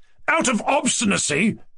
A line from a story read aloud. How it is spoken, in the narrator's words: cried Ganya